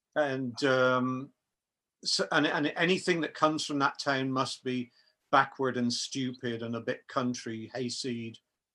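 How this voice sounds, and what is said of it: Rural English country accent. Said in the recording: “my accent is country boy.”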